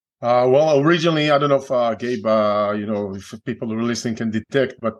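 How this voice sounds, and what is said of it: Israeli accent. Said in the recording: “they may detect an accent. I'm originally from Israel.”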